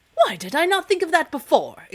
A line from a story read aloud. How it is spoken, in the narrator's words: exclaimed the king